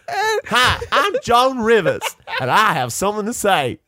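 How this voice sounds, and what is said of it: Imitates another person's voice. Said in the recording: “I'm committing to this impersonation”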